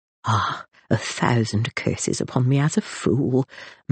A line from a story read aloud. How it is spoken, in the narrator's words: murmured Ferdinand